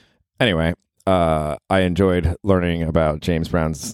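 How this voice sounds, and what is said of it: Usual voice. Nothing is said of it.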